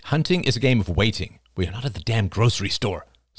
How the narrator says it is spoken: said Oliver impatiently

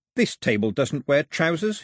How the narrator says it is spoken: he said

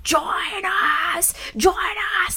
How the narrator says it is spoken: Cheryl screaming

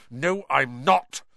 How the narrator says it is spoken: said Harry angrily

